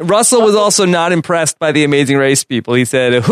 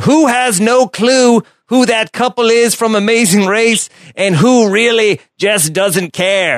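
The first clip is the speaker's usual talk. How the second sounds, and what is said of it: Imitates another person's voice, wild-west style. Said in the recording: “your Russell impersonation. Like, he's from like a wild, wild west.”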